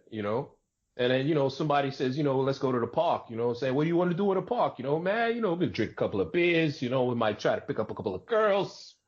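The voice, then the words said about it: New York accent. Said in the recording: “I don't do my New York accent often ... every once in a while you get the accent”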